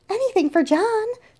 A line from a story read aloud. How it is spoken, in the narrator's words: she cried with a big smile